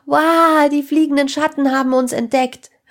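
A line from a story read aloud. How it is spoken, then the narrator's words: Loud shout. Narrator (German): rief Sarah laut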